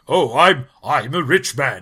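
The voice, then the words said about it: Put-on rich guy voice. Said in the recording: “he switches into this accent when he's rich ... I'm Hulk Hogan doing a rich guy voice.”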